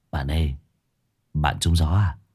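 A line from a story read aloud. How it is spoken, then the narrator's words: Quiet concerned voice. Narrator (Vietnamese): Thấy tôi đứng chết chân, thằng Phong liền nhỏ giọng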